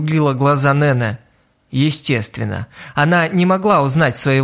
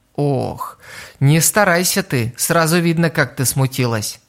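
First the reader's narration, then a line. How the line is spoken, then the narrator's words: Sighing. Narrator (Russian): вздохнула Курана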